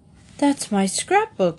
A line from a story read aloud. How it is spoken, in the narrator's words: exclaimed Paddington, looking most upset